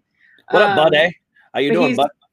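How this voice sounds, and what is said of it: Put-on Canadian accent. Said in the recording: “I was doing my Canadian thing.”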